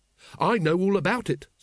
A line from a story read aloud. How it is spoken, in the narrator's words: said Carrot triumphantly